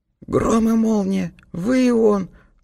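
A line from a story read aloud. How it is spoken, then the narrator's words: Excited exclamation. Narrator (Russian): воскликнул вне себя от возбуждения Сэм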